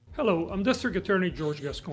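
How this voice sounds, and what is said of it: Impression of George Gascon. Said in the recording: “great George Gascon impersonation ... like that Kermit”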